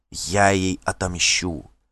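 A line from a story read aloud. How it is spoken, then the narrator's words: Whisper. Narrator (Russian): шепнула Дагейда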